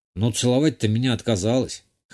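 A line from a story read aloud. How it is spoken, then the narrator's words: Smirking snort. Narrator (Russian): Хмыкнул я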